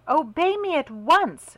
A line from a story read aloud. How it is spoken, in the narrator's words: she cried angrily